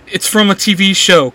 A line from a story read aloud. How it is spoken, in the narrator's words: Clary says in between laughing